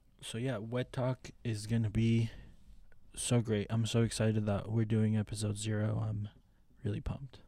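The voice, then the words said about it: Flat monotone fake excitement. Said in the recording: “Don't you love his like really pumped voice? It's a very monotoned, really pump.”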